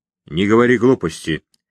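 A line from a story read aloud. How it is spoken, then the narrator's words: Slightly irritated. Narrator (Russian): несколько раздраженно среагировал на вопрос Баранов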